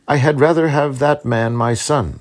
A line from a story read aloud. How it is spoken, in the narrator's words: said he